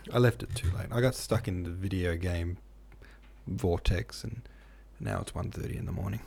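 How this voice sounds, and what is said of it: Sleepy, tired voice. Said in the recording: “hear it in my voice, but I'm mostly asleep right now”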